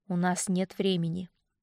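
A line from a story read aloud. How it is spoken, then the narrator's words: Quiet reply. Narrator (Russian): тихо ответил он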